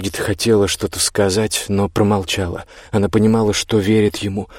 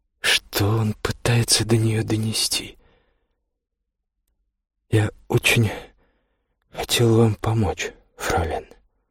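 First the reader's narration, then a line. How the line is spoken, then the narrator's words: Quiet. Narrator (Russian): тихо сказал он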